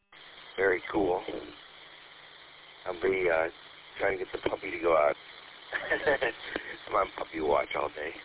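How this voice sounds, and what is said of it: Groggy morning voice. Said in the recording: “my voice is still my morning voice”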